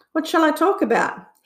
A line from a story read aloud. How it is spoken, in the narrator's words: asked eagerly